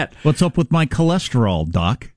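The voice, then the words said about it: Bugs Bunny impression, Brooklyn accent. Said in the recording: “Bugs Bunny ... the Brooklyn accent”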